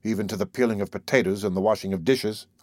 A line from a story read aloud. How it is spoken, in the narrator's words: I answered